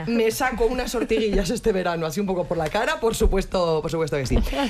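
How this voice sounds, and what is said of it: Andalusian Spanish accent. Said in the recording (Spanish): “me has recordado a la bandera de Andalucía... solo por mi acento”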